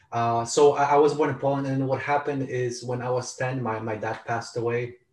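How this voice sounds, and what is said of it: Polish accent. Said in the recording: “I was born in Poland. That's where the accent comes from. And, the name filled with rolling R's.”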